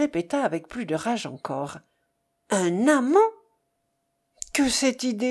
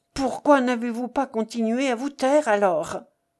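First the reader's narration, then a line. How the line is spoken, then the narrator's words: Pained exclamation. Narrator (French): s'écria-t-il douloureusement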